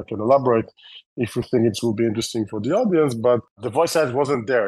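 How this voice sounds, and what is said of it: Israeli-accented English. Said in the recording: “you can hear my terrible Israeli accent”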